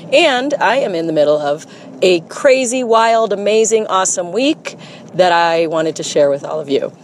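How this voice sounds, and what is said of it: Scratchy, hoarse voice. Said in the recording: “my voice is scratchy because I'm a little under the weather, actually quite a bit under the weather”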